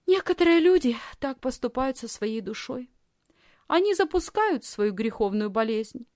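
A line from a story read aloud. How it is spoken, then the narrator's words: Thoughtful reply. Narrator (Russian): Лисхин задумчиво ответила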